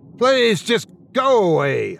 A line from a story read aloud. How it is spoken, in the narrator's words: I shouted